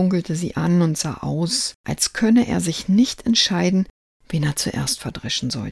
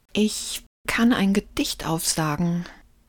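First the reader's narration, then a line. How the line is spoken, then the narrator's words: Trembling voice. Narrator (German): meldete sich Lukas mit zitternder Stimme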